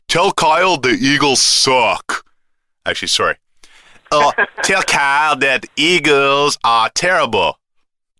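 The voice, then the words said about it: Put-on Oklahoma-North Carolina accent. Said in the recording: “I got to work on my North Carolina accent. ... Oh, I thought that was your JB accent. ... Little bit Oklahoma, little bit North Carolina. ... It sounded a little bit special. ... It's a Tar Heel Okie.”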